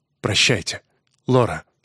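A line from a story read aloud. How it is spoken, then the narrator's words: Curt. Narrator (Russian): отрывисто сказал он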